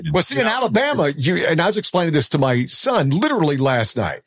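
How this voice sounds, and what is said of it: Southern US accent. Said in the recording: “speaking with a Southern accent, even though lives in the North. But I could tell the Southern accent,”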